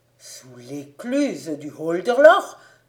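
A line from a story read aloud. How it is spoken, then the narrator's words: Exclaimed by onlookers together. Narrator (French): s'écrièrent les assistants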